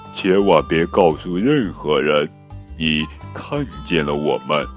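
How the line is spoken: Low growl. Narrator (Chinese): 最后一个小家伙低吼着

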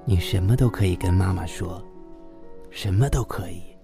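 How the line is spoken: Tender, loving. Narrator (Chinese): 慈爱地说

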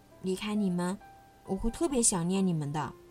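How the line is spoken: Soft-spoken. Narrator (Chinese): 小兔妮妮轻声说

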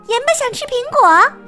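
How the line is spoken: Calling out. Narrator (Chinese): 米粒叫

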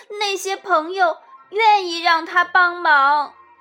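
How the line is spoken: Shouting. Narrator (Chinese): 松鼠大叫

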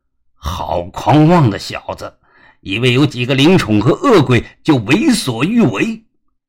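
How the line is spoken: Shouting. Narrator (Chinese): 领头的一个黑影喊道

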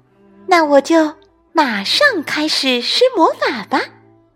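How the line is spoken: Smiling. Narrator (Chinese): 海莫丽娜笑了笑

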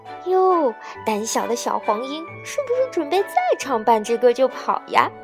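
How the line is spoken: Mocking laughter, clapping. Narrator (Chinese): 他们拍着手笑道

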